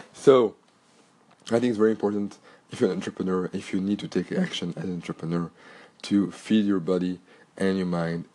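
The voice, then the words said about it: Cracky voice from a cold. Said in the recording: “my voice is a little bit cracky today because I have a cold”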